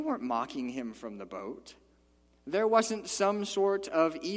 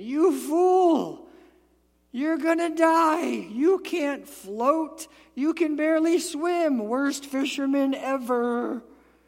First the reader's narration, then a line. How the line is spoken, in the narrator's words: They weren't yelling at him